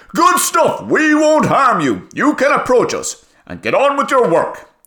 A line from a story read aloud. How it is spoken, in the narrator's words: cleared his throat for a yell and shouted